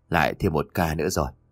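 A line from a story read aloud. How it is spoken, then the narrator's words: Barely audible mutter. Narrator (Vietnamese): Miệng của ông ta vẫn bầm một câu nói khẽ khàng, tưởng chừng như là không ai có thể nghe được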